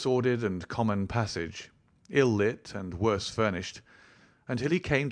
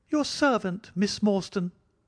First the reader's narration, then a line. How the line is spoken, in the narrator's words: he kept repeating in a thin, high voice